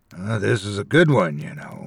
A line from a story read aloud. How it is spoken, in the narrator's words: he rasped